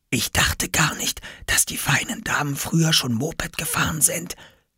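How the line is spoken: Whisper. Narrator (German): flüsterte Oskar

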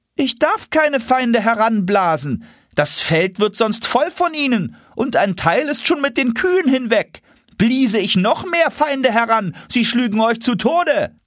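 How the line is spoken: Calling back. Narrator (German): Eulenspiegel rief zurück

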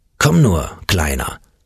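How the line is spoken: Growled. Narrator (German): knurrte Hammerbruno

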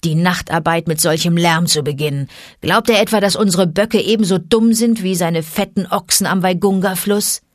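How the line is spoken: Wolf growling. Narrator (German): knurrte Vater Wolf

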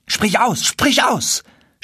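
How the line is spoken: Shouting. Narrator (German): schrie Chasid

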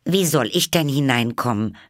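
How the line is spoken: Loud repetition. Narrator (German): wiederholte sie laut

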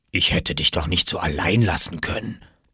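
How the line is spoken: Whispered. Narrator (German): flüsterte

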